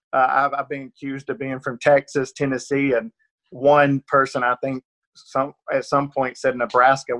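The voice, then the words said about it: Rural Georgia Southern accent. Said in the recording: “the accent is always a problem ... rural Georgia accent. I'm definitely from Northeast Georgia”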